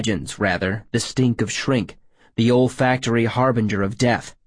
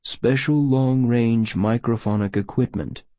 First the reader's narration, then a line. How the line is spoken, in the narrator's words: Sourberry purred